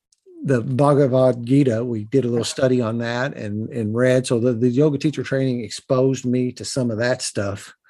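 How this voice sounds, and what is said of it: Southern Indiana rural accent. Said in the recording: “I talk in what I call Southern Indiana hillbilly. And a lot of people talk about my accent, no matter where I go”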